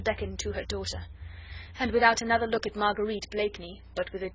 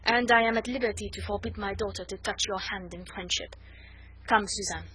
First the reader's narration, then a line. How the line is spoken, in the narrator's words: rejoined the Comtesse coldly